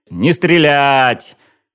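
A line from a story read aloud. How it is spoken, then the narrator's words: Yelling. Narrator (Russian): заорал я Петру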